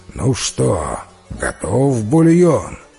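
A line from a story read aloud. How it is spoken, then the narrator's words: Sleepy giant's voice. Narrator (Russian): великан сонным голосом спросил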